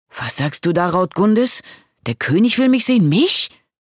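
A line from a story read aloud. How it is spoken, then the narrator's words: Astonished exclamation. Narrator (German): rief Garibald verblüfft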